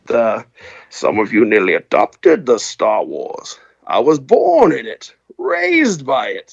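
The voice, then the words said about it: Imitates Bane character voice. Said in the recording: “my Bane impression”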